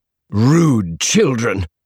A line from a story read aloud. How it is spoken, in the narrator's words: woman glared at her and snapped